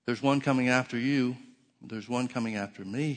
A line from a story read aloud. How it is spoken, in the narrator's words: he said